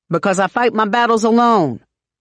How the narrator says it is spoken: she snaps

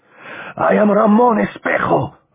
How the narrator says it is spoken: Ramon shouted

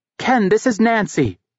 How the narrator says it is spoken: she shouted

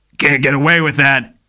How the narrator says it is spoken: he snarled

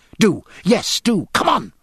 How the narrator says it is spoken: cried Jack

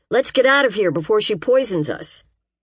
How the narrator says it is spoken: Joe was hollering

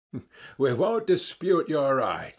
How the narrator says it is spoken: the others answered, laughing

